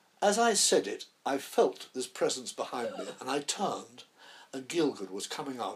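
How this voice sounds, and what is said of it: Usual voice. Nothing is said of it.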